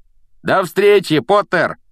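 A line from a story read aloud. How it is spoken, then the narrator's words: Several people shouting. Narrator (Russian): прокричали еще несколько человек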